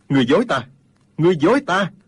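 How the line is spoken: Loud shout. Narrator (Vietnamese): Dương Tiêu quát to

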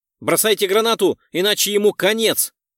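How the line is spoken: Shouted. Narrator (Russian): выкрикнул Эндрюс

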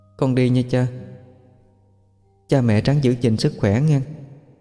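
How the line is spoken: Very sad voice. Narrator (Vietnamese): nó nói với giọng điệu buồn lắm

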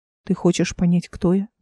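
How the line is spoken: Plain. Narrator (Russian): спросил он наконец

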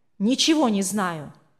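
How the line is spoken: Irritated reply. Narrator (Russian): раздраженно ответил тот

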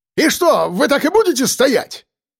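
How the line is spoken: Yelling. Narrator (Russian): Заорал он краснее

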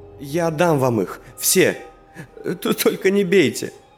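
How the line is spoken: Tearful speech. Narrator (Russian): сквозь слезы сказал

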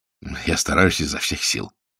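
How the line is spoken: Mumbling. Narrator (Russian): пробормотал бутлегер

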